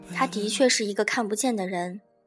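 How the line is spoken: Sighing. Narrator (Chinese): 他叹了一口气说

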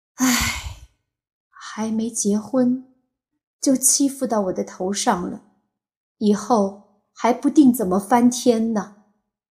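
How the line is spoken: Old mother sighing. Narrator (Chinese): 老娘叹了口气说

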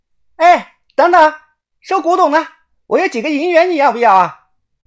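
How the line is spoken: Woman calling out. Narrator (Chinese): 楼上一个女的叫我

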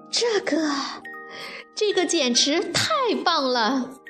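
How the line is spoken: Cheerful, giggling. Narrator (Chinese): 大熊笑嘻嘻地说

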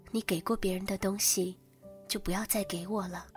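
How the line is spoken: Flat, cool. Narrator (Chinese): 淡淡的说

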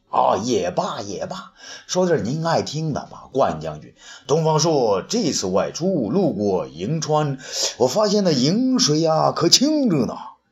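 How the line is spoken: With a light laugh. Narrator (Chinese): 东方朔也是一笑

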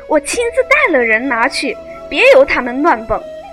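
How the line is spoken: Delighted, hurried. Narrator (Chinese): 贾蓉喜得眉开眼笑，忙说

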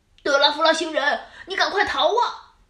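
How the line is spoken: Shouting. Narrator (Chinese): 又有人喊

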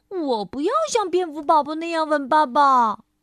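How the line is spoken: Baby bear crying out. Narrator (Chinese): 熊宝宝叫道

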